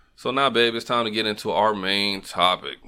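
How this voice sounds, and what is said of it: Bored, flat delivery. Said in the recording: “Why you sound so bored?”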